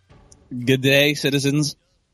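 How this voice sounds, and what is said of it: Put-on Australian accent. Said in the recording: “My Australian accent.”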